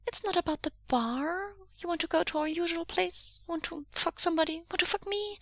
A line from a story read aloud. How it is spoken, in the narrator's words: he offers kindly